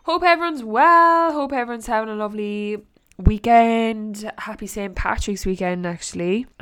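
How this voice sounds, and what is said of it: Nasal, congested voice. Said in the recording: “the nasally voice that's coming out of my mouth right now ... I have a head cold”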